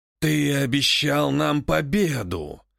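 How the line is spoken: Hiss. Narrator (Russian): прошипел великий варан

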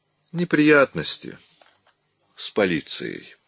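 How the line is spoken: Calm. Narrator (Russian): спокойно произнес Чандлер

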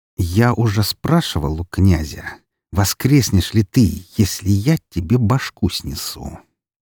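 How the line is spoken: Very slow. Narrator (Russian): Очень медленно проговорил я

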